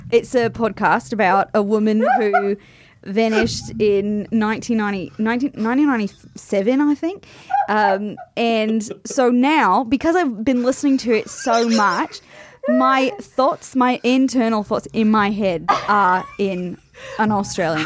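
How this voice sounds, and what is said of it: Put-on Australian accent. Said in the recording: “it comes so naturally to you. That is so impressive. The Australian accent is so hard to nail down ... you have it nailed down”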